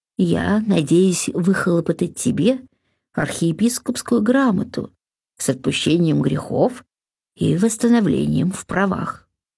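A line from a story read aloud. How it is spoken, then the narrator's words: Calm abbot. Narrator (Russian): спокойно сказал аббат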